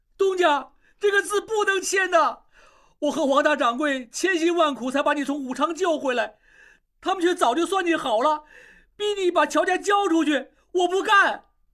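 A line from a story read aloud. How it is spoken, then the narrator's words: Crying out behind door. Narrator (Chinese): 小栓仍在门外哭喊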